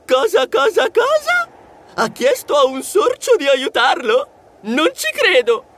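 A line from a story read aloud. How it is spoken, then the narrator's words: Shrieked. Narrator (Italian): Lui strillò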